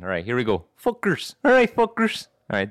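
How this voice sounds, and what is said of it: Put-on cholo accent. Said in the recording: “let me get my cholo accent again”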